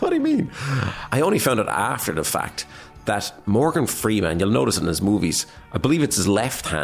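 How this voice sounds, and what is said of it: Usual voice. Nothing is said of it.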